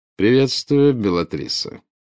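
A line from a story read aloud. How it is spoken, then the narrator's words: Slightly mocking. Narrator (Russian): ответил он, чуть насмешливо искривив губы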